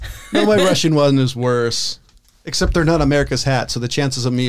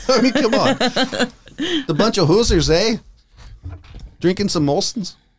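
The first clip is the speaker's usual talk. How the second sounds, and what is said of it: Bad put-on Canadian accent. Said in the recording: “Was that your Canadian accent? ... Yeah, it was horrible.”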